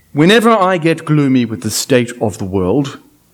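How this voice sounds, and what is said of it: Plummy upper-class English accent. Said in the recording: “I'm going to put on my very best plummy English accent”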